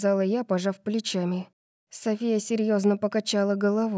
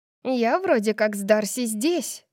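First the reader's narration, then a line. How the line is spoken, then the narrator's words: Squeaky voice. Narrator (Russian): пропищала Тори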